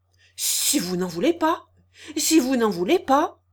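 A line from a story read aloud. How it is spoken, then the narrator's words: Stammering, choked with passion. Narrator (French): bégaya Lantier, que la passion étranglait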